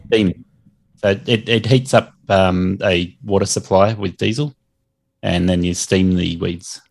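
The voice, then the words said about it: Speaks with a noticeable accent. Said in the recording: “My accent will get you every time.”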